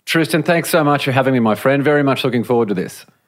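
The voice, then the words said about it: Australian accent. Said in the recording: “that accent makes it a lot easier to talk to you ... haven't managed to shake the Aussie accent as yet”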